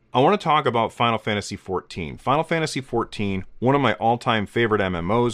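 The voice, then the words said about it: Hoarse, congested voice. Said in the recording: “apologize for my voice. I'm getting over a cold, and so I sound a little hoarse and a little stuffed up”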